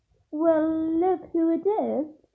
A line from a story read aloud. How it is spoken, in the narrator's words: said Malfoy in his usually lazy drawl